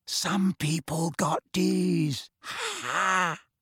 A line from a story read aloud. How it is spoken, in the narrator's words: smirked as sniggered and said in a carrying whisper